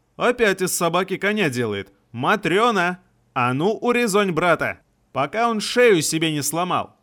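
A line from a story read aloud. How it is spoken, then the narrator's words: Shouting. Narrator (Russian): Прокричала она внутрь дома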